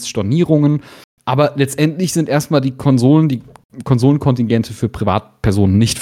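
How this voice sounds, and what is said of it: Usual voice. Nothing is said of it.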